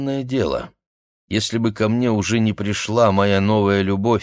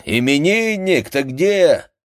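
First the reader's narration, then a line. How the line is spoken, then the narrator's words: Group shouting from apartment. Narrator (Russian): товарищи кричали из квартиры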